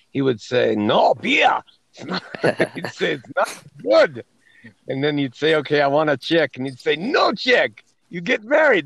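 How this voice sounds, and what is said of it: Bad fake German accent. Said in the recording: “This is my bad German accent.”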